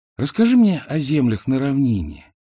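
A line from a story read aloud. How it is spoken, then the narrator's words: Lazy request. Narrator (Russian): лениво попросила она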